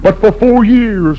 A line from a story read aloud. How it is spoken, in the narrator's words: my mother sobbed